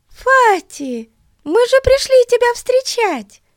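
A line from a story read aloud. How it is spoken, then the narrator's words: Exclamation. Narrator (Russian): воскликнула Бетси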